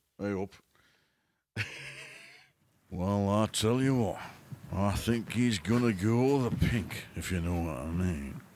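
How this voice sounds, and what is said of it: Put-on Yorkshire accent. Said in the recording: “I want you to do it in a Yorkshire accent”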